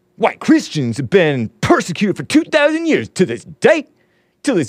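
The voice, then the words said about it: Imitates another person's voice. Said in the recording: “your best Deontay Wilder impression”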